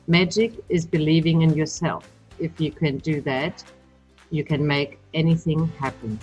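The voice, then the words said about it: German accent. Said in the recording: “now, of course, you hear my German accent.”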